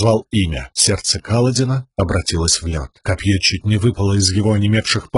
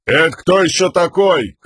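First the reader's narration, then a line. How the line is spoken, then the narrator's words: Shouted reply. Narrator (Russian): крикнул в ответ ему Камень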